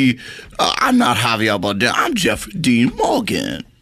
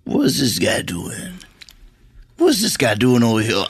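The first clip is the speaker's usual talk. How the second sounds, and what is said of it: Imitates another person's voice. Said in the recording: “So I would like to do my impression of Javier Bardem. Looking at me in this party situation.”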